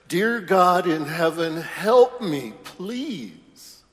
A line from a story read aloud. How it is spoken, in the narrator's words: screams up to heaven